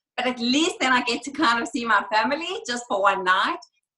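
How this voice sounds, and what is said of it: South African accent. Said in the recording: “I love your accent. Where are you originally from ... South Africa”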